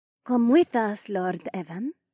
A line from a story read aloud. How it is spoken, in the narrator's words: Sky whispered